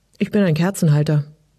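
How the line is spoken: Dry reply. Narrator (German): kam es trocken zurück

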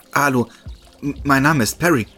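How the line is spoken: Stammer. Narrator (German): stammelte

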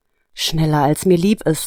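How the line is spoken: Sighing. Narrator (German): antwortete Nina seufzend

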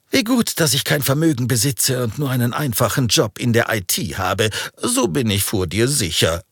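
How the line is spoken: Laughing. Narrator (German): lachte er

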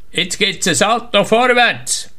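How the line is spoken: Calling down from high board. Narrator (German): Vom 3-Meter-Brett ruft er runter

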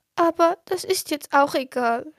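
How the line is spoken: Little tree sobbing. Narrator (German): schluchzte das kleine Bäumchen

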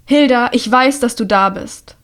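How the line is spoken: Calling out. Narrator (German): ruft sie

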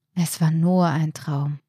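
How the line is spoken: Relieved sigh. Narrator (German): seufzte Martin erleichtert

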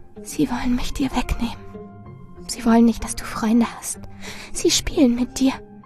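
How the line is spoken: Steady whisper. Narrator (German): Doch Marilyn flüsterte unbeirrt

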